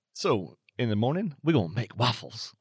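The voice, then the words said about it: Poor imitation of another person's voice. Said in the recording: “That's a terrible impersonation of Eddie Murphy, but I gave it a shot.”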